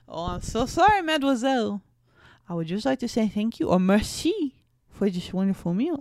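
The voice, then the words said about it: Weak put-on French accent. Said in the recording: “French accent ... giving them like a speech impediment ... I'm not good at accents”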